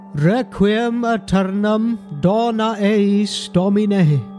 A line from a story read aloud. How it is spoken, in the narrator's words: he intoned, trying not to wince